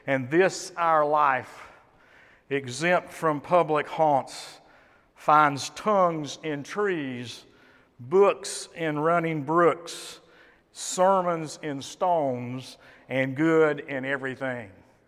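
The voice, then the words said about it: Shakespearean dramatic recitation. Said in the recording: “my impression of Shakespeare”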